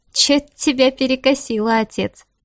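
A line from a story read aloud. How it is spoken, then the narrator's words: Amused snort. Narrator (Russian): фыркнула она, чувствуя, что ее это смешит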